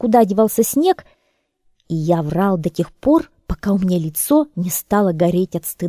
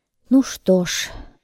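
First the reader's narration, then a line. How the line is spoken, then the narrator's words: Sighing. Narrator (Russian): вздохнул я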